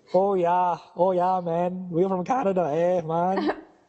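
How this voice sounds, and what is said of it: Put-on mixed Jamaican–New Zealand accent. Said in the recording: “You sound like you're from New Zealand ... Like a Jamaican who's been brought up in New Zealand.”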